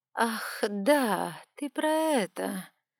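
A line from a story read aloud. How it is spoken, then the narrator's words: Drawling young woman. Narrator (Russian): протянула девушка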